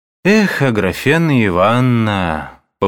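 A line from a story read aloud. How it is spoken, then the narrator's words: Lazy sighing repetition. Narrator (Russian): повторил он лениво, вздыхая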